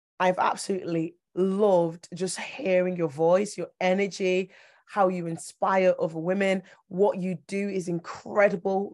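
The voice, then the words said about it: Strained, fading voice. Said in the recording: “as you can hear, my voice is going.”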